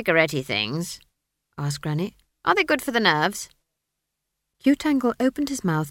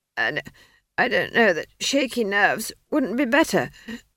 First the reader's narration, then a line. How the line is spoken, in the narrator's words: she wheezed